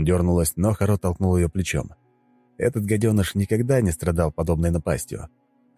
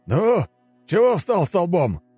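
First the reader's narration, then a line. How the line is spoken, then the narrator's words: Shout. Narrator (Russian): крикнул усач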